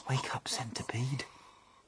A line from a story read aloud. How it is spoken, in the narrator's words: whispered James